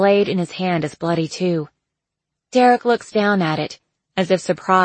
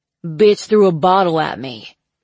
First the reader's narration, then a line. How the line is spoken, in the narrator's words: he growls, revealing bloody gums and a missing incisor